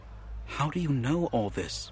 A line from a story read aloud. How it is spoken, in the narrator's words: we whispered